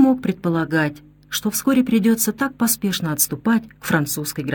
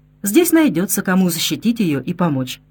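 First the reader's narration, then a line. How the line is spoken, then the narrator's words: Laughing girl's reply. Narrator (Russian): Девушка засмеялась и ответила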